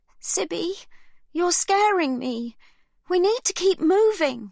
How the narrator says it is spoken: Livy cries

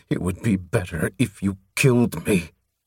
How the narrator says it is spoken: Through his teeth, he pleaded

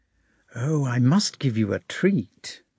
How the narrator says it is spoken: Bilibin whispered to Bolkonski

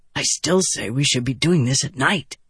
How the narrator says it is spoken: Vatha whispered

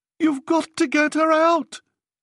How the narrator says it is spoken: Hannah was screaming

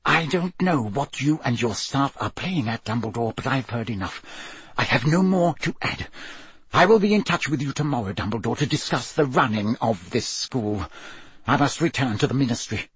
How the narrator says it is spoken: apparently repelled by the ugly mark on Snape's arm, whispered

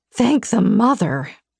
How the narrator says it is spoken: I choked out

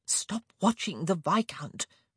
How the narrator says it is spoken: Mary hissed

